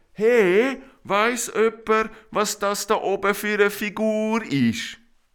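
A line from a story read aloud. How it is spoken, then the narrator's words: Calling from above. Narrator (German): von oben ruft Arelina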